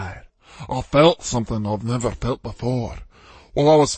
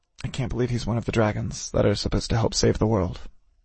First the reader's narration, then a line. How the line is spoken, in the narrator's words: I muttered